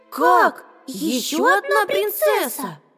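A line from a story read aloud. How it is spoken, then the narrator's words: Joyful little mice exclaiming. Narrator (Russian): радостно воскликнули мышата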